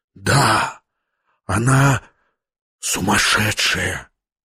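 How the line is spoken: Whispered. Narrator (Russian): прошептал он

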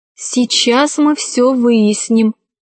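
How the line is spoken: Plain. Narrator (Russian): сказала Кора

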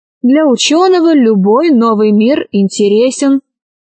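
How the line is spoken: Plain. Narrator (Russian): сказал Аркаша

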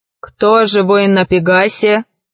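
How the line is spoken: Monster's thunderous question. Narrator (Russian): громовым голосом спросило чудовище

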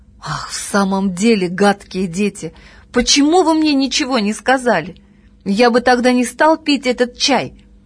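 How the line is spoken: Exclamation. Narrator (Russian): папин начальник воскликнул

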